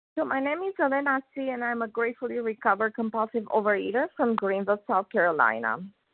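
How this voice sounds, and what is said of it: Voice sounds a little off. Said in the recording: “My voice is a little funny today.”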